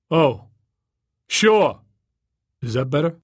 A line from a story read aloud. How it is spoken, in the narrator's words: The volume diminished sharply